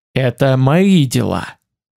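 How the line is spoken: Near growl. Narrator (Russian): почти прорычал

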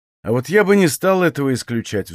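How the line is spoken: Sigh. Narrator (Russian): вздохнул

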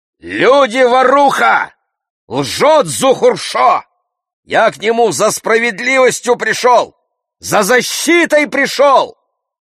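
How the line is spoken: Proud loud shout. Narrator (Russian): Покойный Гиоз выпрямляется гордо, голову высоко поднимает, кричит громким голосом

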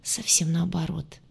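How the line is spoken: Hoarse reply. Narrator (Russian): хрипло отозвался он

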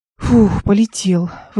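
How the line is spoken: Relieved exhale. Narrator (Russian): выдохнула

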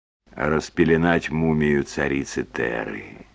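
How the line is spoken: Quiet, gentle reply. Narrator (Russian): Мистер Трелони, видимо, понимая ее состояние, тихо ответил

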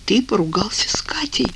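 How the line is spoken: Moaned. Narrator (Russian): простонал Вадим

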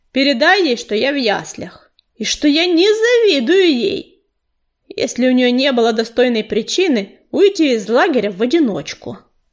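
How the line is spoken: Grumbling. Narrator (Russian): проворчал он

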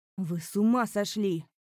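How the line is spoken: Prince barking. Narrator (Russian): рявкнул князь

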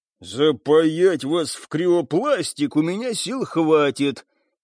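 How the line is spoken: Growling thug. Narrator (Russian): прорычал мордатый

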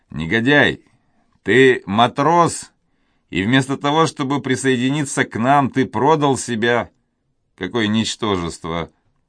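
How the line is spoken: Laughing. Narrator (Russian): Алане засмеялся

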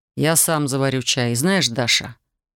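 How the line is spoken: Cold. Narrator (Russian): Холодно добавил он

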